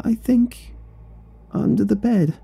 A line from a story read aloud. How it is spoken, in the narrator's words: whimpered